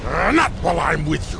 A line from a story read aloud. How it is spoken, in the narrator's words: growled Turl